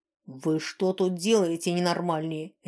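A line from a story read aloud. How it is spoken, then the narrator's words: Barking snap. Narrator (Russian): рявкнул он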